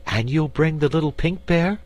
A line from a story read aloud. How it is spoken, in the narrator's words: asked Dorothy eagerly